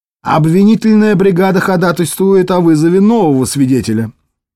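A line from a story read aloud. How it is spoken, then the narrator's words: Plain. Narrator (Russian): сказал обвинитель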